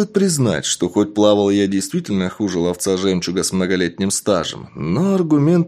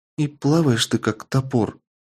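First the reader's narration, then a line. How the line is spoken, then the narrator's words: Shaky voice, attempted joke. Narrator (Russian): до сих пор дрожащим голосом попыталась пошутить Милля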